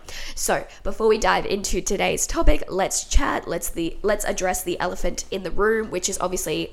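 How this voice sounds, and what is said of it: Congested, blocked-nose voice. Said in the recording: “I sound so congested. ... I have a cold. ... I have a blocked nose ... my throat is killing me.”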